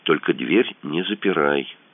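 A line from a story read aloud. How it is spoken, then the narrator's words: Whispered. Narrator (Russian): шепнул Кацуба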